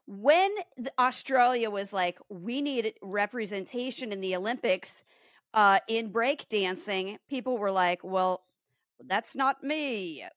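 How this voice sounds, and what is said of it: Bad put-on Australian accent. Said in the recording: “That's a really bad Australian accent. ... Yeah, the tone was right.”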